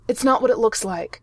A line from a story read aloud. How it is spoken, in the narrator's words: Clint blurted out